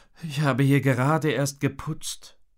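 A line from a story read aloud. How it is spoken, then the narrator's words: Sighed. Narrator (German): seufzte ich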